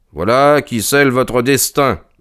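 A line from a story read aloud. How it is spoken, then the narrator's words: Cold declaration. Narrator (French): déclara-t-il froidement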